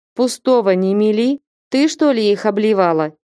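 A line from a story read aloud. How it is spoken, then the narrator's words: Plain. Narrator (Russian): сказал Потап Максимыч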